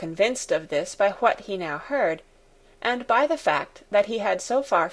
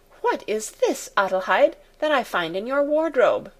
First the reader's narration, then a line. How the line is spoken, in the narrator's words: she exclaimed